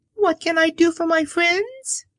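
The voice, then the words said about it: Squeaky little character voice. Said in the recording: “in her squeaky little voice,”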